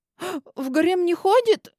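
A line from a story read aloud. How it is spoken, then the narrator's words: Sobbing. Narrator (Russian): всхлипнула я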